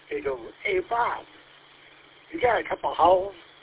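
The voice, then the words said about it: Imitated Louisiana accent. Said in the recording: “he's from Louisiana, so he has a terrible accent.”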